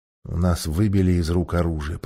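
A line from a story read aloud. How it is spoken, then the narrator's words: Whispered. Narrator (Russian): прошептал Юстас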